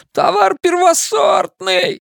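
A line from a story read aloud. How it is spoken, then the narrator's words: Merchant wailing. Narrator (Russian): взвыл торговец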